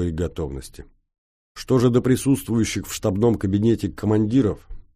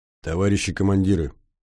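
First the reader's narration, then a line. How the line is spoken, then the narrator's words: Tired calling out. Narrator (Russian): устало потеряв переносицу, позвал Гончар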